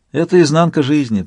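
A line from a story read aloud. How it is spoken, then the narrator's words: Sigh. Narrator (Russian): вздохнул Сварог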